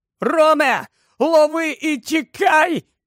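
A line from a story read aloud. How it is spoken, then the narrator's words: Shouted. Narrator (Ukrainian): закричав він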